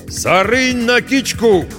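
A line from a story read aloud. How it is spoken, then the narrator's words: Shout. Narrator (Russian): крикнул он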